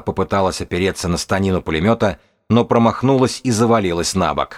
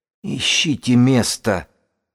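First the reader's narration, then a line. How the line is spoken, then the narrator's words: Strained, barely forced out. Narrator (Russian): Сибилла едва выдавила из себя эти слова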